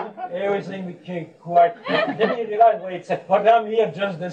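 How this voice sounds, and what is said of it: Usual voice. Nothing is said of it.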